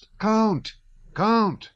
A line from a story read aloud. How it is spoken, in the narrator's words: shouted Berg, who ran up from the other side as eager as Boris